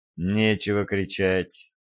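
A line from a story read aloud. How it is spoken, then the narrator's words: Calm. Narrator (Russian): спокойно сказала Глори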